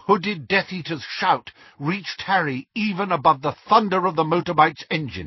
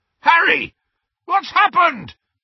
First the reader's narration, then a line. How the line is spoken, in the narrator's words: bellowed Hagrid